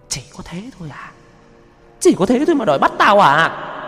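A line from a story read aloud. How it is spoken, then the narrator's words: Shrill voice. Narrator (Vietnamese): Giọng nói cất lên the thé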